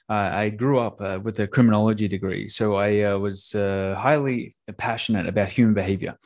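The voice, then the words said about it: Australian accent with other influences. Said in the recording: “I wasn't quite sure of the accent ... any other influences that are in his accent ... I'm an Australian that now lives in Tampa, Florida”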